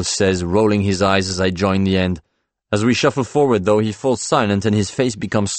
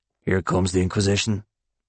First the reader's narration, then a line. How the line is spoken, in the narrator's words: Paul mutters in my ear